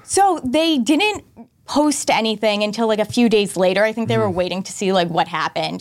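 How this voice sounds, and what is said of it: Boston accent. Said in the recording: “You should keep your accent ... Who knew you had a Boston”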